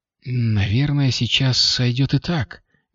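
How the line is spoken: Soft. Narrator (Russian): мягко заметила Кристина

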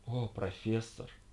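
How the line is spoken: Voluptuous moan. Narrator (Russian): сладострастно простонала Джейн Блензи

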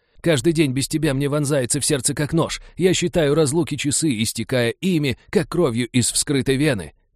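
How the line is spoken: Loudspeaker wailing. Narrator (Russian): продолжал вопить динамик

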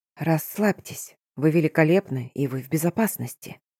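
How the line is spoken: Soothing whisper. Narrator (Russian): шептал мне голос

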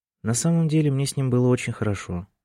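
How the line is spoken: Sad. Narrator (Russian): грустно сказала Сара

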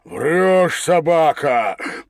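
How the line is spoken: Strained growl. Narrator (Russian): прорычал Багров от напряжения Степан

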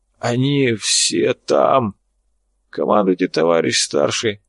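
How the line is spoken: Wheezing. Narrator (Russian): прохрипел

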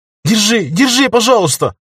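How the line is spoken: Shouting while crying. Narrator (Russian): Альфия кричала, сама плакала

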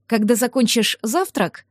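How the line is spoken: Even voice. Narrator (Russian): ровным голосом сказала

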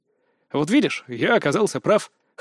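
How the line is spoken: Smug grunt. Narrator (Russian): хмыкнул я

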